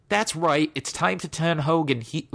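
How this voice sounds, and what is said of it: Bad impression, slips into British accent. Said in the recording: “I'm going to do the terrible fake Vince Russo voice ... What the hell did that have become British?”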